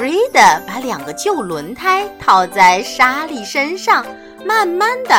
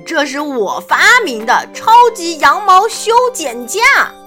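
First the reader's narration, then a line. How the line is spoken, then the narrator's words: Proud, loud. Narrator (Chinese): 弗瑞德骄傲地大声说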